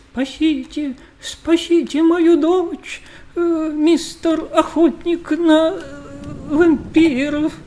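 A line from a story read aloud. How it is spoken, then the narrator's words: Desperate pleading. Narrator (Russian): барон Свистодырочкин взмолился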